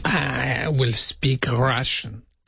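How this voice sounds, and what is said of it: Unconvincing put-on Russian accent. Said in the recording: “Nah, it still doesn't sound right. Sounds like a bad Con the Fruiterer, really”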